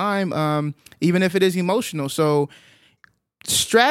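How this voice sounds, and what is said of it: Usual voice. Nothing is said of it.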